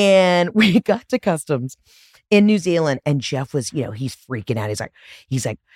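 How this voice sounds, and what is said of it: Usual voice. Nothing is said of it.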